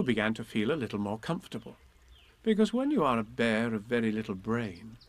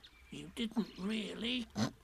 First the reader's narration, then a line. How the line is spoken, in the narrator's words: whispered Piglet to Pooh, so as to comfort him